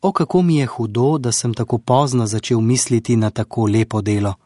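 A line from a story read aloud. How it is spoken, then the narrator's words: Regretful sighing. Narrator (Slovenian): je vzdihoval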